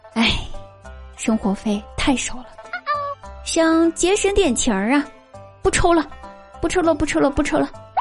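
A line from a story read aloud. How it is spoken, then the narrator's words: Sighing reply. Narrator (Chinese): 老爸叹了口气，回答道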